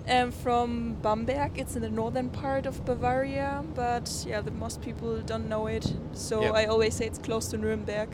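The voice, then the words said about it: German accent. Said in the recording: “I'm from Germany. You can hear it maybe from my accent.”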